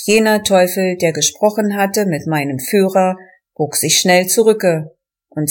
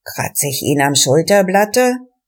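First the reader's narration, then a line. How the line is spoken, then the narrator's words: Murmuring. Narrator (German): raunte einer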